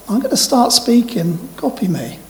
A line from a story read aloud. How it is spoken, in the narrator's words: this guy who was leading this meeting, he just came up to me and very gently said